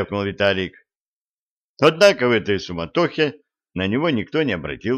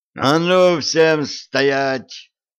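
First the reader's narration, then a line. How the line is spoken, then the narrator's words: Yelling. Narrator (Russian): заорал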